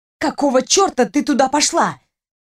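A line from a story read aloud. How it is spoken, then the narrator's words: Angry hiss. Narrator (Russian): Зло зашипела она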